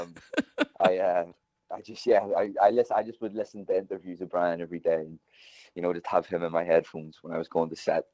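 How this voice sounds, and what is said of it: Northern Irish accent. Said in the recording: “I didn't realise you sounded this Northern Irish”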